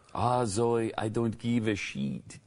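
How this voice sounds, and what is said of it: Cute put-on Italian accent. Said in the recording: “she puts on this cute Italian accent”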